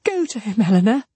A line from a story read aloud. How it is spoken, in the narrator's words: she cried as soon as she could speak